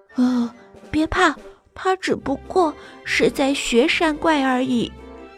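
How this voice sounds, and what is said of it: Quiet whispered reassurance. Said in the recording (Chinese): “小声的互相安慰说”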